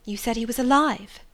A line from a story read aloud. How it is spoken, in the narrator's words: exclaimed